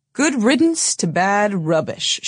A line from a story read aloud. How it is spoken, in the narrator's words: she said, chuckling